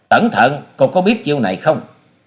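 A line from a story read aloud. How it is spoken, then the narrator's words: Loud shout. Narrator (Vietnamese): Hòa sĩ Kiệt quát to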